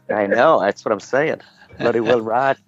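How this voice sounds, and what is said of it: Imitates another person's voice. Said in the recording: “Anybody who can do as good an impersonation of Stephen Bloody Rigg as me”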